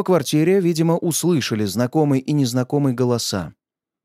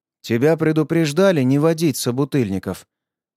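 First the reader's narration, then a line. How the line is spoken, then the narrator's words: Even, calm voice. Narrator (Russian): сказал сынок ровным голосом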